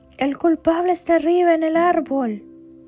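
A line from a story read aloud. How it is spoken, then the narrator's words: Boar's fearful fleeing shout. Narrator (Spanish): El jabalí hizo un ruido temeroso y se escapó gritando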